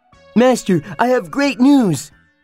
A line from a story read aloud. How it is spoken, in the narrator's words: he cried